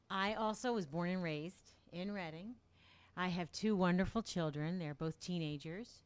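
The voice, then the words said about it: Smooth, pleasant radio voice. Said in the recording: “the nice radio voice... So great on the radio”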